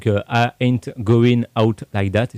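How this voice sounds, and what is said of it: French speaker's accented English. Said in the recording (French): “mon accent anglais n'a ... pas amélioré ... cet accent il est parfait”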